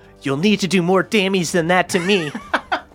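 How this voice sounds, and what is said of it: Imitates another person's voice. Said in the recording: “Do not do my voice.”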